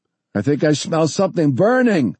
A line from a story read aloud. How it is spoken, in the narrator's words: Forrest shouted